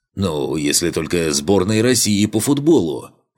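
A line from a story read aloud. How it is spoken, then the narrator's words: Dwarf's deep bass. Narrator (Russian): пробасил гном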